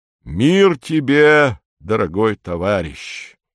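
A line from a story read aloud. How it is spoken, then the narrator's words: Solemn. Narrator (Russian): произносит он торжественно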